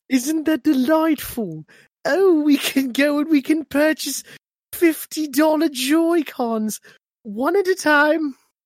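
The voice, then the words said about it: Put-on British accent. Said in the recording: “You should have done this in your British accent.”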